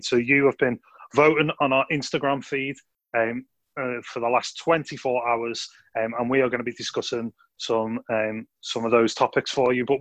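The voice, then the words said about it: Scouse accent. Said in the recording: “by my Scouse accent”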